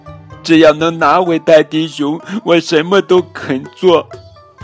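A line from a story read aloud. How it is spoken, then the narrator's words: Crying. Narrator (Chinese): 猫坏坏哭着说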